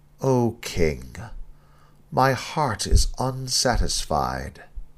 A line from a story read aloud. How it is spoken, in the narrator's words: sighed